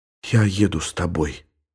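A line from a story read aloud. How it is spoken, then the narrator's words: Whisper. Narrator (Russian): шепнула Елена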